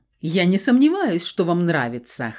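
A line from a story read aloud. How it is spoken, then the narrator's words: Chuckle from behind. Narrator (Russian): хохотнул за моей спиной Феникс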